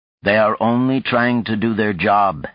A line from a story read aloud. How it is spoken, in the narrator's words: Helmut said blandly